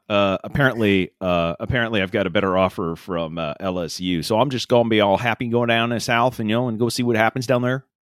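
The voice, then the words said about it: Vague, unplaceable put-on accent. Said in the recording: “That's a really good accent. ... That was terrible. ... it was off enough that you knew it was an accent of some kind, but not of anything in particular.”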